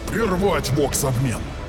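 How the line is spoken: Barked command. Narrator (Russian): Рявкнул Варзевал

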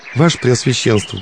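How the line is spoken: Thin voice, crying bitterly. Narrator (Russian): проговорила она тонким голоском, уже горько плач

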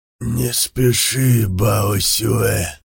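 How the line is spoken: Sudden creaky old voice. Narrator (Russian): проскрипел вдруг император

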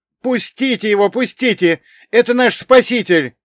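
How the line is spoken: Relieved shouting. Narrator (Russian): кричал он, и в голосе его слышалось облегчение

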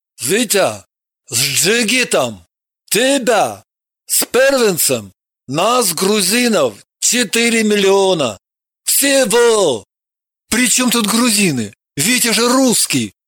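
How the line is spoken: Surprised loud question. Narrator (Russian): Удивился Евгений и громко спросил

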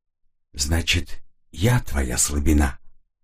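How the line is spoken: Whisper. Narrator (Russian): губы прошептали

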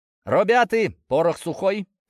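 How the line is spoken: Shout. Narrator (Russian): крикнул

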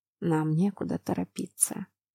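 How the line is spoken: Whisper. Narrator (Russian): прошептал мужчина

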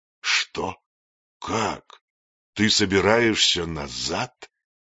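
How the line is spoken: Hissed. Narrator (Russian): прошипел

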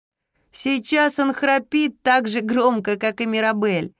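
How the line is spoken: Laughing. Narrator (Russian): засмеялась Зира

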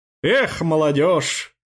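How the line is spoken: Snorting. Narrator (Russian): хмыкнул Трубецкой

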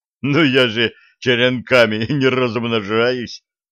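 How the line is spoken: Old troll's loud laugh. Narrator (Russian): расхохотался старый тролль

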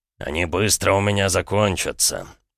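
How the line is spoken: Calm. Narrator (Russian): спокойно ответил Эдуард

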